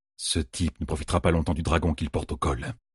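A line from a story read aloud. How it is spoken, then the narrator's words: Muttered. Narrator (French): marmonna Loghain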